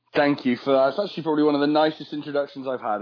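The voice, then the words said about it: British accent. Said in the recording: “I am British, so hopefully my accent will help soothe some of that.”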